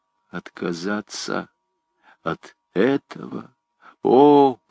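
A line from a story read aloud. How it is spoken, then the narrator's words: Whispered, poor deaf man. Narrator (Russian): прошептал бедный глухой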